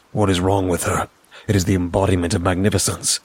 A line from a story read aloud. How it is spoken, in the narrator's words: muttered